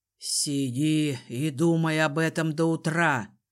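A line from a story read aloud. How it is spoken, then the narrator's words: Growled. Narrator (Russian): рыкнул Арензот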